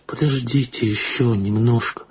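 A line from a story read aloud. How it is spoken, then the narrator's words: Pleading. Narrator (Russian): умоляющим голосом произнесла Акулина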